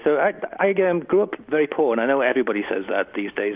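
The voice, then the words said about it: English accent. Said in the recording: “you can tell by my accent, I come from England”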